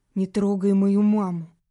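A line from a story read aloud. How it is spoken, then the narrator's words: Hoarse mumble. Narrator (Russian): Сипло пробубнил парень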